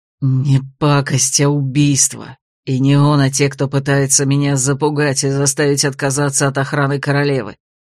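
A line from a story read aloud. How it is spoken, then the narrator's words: Hateful breathy exhale. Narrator (Russian): с ненавистью выдохнул Годранс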